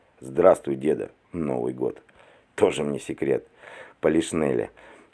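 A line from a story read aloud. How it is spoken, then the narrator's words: Snorting. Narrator (Russian): хмыкнул Остап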